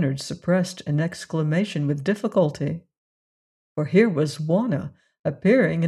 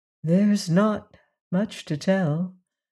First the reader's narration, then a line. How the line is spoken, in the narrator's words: replied Wanna, heaving a sigh of relief, for this cross-examination as to exact relations with Leonard had been somewhat trying